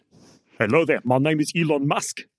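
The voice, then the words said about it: Put-on South African accent. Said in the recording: “in his signature, my father owns a diamond mine in South Africa accent.”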